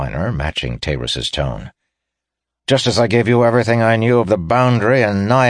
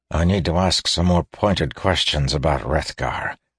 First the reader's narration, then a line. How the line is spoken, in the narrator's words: he said grimly